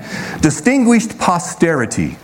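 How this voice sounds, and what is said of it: Put-on English accent. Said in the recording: “that's my English accent”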